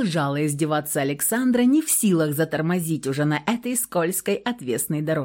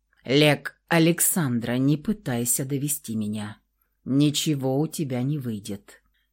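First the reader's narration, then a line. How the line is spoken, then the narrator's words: Unexpectedly calm. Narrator (Russian): неожиданно спокойно сказал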